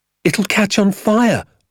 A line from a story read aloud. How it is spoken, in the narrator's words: I cried